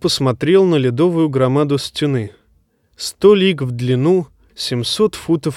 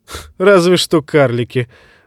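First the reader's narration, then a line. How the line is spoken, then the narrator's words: Laughing. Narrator (Russian): засмеялся Бедвик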